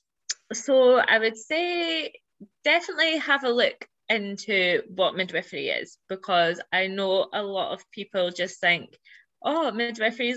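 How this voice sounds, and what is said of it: British accent. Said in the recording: “the British accent over here. ... I love your accent.”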